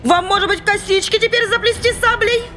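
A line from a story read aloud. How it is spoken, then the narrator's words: Mocking, worked-up shouting. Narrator (Russian): Издевательски кричала разошедшаяся монашка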